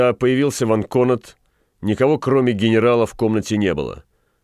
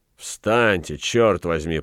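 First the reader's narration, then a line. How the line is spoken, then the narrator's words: Through gritted teeth. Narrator (Russian): процедил Фельтон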